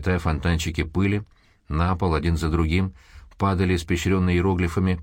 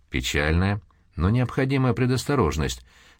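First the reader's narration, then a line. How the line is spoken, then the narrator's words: Calm explanation. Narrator (Russian): спокойно пояснил Дрейвик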